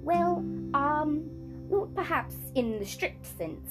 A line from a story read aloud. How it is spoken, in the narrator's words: stammered Uncle Andrew